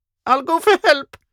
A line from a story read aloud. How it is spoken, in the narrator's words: Magnan squeaked